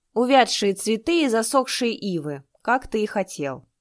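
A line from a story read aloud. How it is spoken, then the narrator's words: Bark. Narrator (Russian): рявкнул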